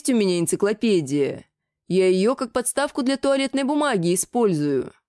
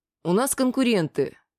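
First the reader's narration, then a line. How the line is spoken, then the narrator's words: Calm. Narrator (Russian): сказал я спокойно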